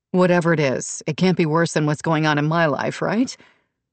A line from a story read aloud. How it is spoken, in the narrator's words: Brooke laughed